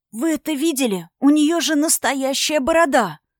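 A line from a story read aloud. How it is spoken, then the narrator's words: Loud stunned whisper. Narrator (Russian): громко зашептал ошеломленный Ольн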